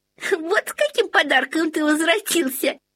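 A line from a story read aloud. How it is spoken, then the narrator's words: Giggle. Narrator (Russian): хихикнула Лоттен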